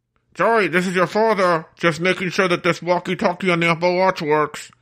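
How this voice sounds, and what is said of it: Imitates another person's voice. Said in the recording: “you did a great impression of Joe right there”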